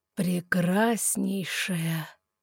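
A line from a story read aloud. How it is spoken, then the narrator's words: Slow, smiling. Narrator (Russian): Медленно улыбнулся тот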